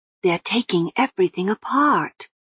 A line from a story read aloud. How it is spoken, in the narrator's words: whispered Lobsang